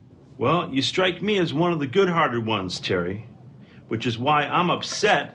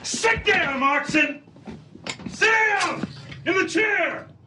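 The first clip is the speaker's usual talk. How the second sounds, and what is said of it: Yelling. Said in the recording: “he's yelling there”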